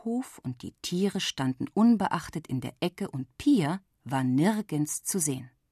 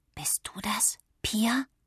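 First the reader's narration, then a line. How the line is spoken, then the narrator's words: Whispered. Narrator (German): flüsterte sie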